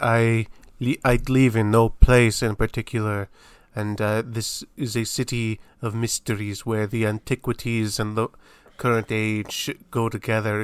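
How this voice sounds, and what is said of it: Put-on accent for a character. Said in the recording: “Why are you giving him that accent? He doesn't have an accent.”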